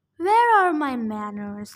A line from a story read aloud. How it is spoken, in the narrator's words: Luke said smoothly